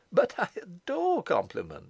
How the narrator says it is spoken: she exclaimed

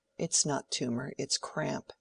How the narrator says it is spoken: Lydgate said to the house surgeon in an undertone

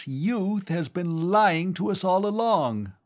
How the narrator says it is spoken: the old man with the beard cried

